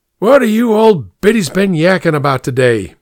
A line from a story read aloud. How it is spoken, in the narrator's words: boomed out